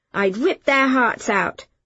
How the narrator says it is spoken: said, suddenly fiercely defensive

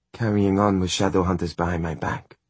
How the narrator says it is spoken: she said icily

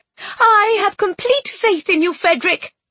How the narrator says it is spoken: Constance chirped

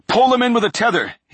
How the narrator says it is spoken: he yelled

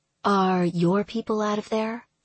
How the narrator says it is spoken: she asked

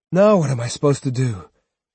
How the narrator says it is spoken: He sighed

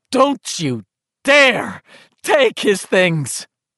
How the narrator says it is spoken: she had screeched

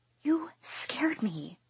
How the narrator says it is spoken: I whisper

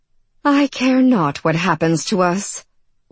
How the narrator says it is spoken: Orchid sighed

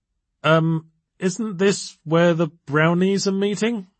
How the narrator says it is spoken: she stammered

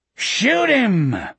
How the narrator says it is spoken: Morgan bellowed

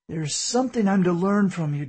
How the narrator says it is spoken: David pleaded

